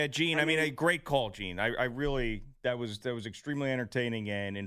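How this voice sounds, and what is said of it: Usual voice. Nothing is said of it.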